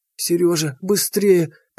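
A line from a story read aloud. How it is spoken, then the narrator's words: Moan. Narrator (Russian): простонала Лида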